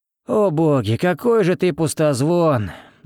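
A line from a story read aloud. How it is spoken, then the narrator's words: Sigh. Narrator (Russian): вздохнул я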